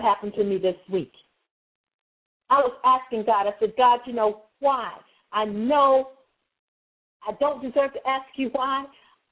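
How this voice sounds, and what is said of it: Excited, animated delivery. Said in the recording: “you can hear the excitement in my voice”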